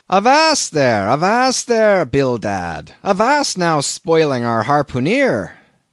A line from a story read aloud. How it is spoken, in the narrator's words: cried Peleg